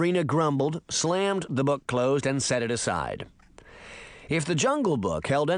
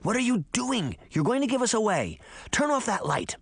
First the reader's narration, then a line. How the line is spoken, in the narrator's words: Daphne whispered